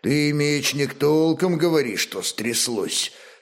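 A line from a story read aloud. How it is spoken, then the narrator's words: Calm elderly man, Veps. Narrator (Russian): спокойно спросил по-вепски пожилой ладожанин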